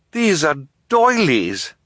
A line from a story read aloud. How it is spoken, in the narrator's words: Violet cried